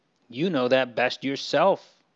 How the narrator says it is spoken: he snaps out

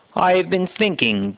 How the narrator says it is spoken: Joseph says

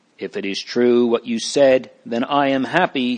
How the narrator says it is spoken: said Mr

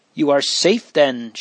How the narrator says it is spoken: she exclaimed in astonishment

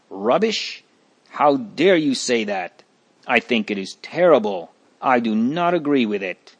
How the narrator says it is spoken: Another answered hotly

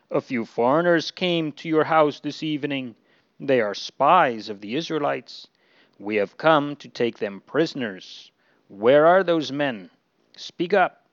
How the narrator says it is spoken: orders in a rough tone

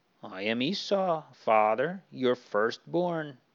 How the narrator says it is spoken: Esau answered

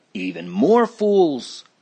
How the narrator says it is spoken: Obstinate grumbled

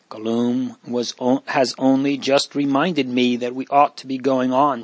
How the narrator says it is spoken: said

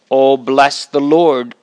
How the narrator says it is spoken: cried my soul

